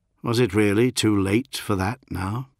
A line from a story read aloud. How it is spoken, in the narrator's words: He sighed